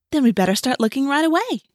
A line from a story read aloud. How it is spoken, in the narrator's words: Rachel said brightly